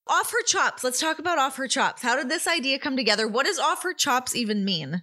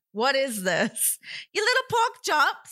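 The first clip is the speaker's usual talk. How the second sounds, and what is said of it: Weak attempt at Australian accent. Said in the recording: “I can't do an Australian accent.”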